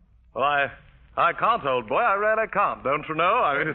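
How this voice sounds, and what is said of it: Imitation of a cultured Englishman. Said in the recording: “he talks like a cultured Englishman ... he spoke like an Englishman ... First he spoke perfect English”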